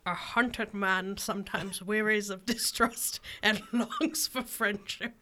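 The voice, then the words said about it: Gandalf-like wizard character voice. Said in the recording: “let me do it with one more accent ... Was that like a Gandalf voice? ... It was”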